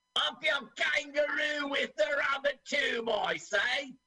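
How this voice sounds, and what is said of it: Attempted Australian accent sounding Cockney. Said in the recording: “I keep doing Cockney. I can't do Australian. ... you gave a bad impression.”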